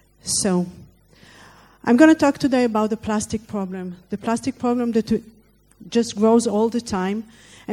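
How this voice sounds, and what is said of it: Foreign accent speaking English. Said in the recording (French): “excuse my accent and my English”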